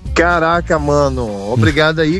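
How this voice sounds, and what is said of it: Attempted Carioca accent mixed with Paulista. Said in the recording (Portuguese): “você tem que falar isso com o sotaque carioca agora ... esse é o sotaque do Rio de Janeiro? ... Não é não, rapaz. Ele misturou aí paulista com carioca”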